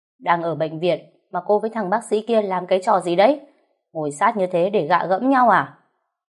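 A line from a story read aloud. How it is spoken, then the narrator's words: Angry scolding shout. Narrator (Vietnamese): anh ta mới bực bội quát tôi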